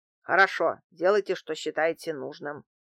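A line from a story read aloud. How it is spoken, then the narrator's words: Grumbling. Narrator (Russian): проворчал антиквар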